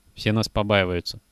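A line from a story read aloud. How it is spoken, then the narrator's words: Sad. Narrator (Russian): печально сказал Кожухов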